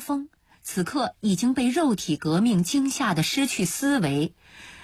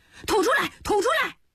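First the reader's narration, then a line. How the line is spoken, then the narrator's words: Repeated shouting. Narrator (Chinese): 一声声喊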